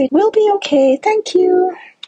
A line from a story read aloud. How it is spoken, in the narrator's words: I calmly say